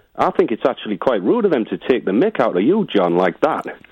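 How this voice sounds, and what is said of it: Welsh accent. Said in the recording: “I'm getting from your accent there that you're Welsh”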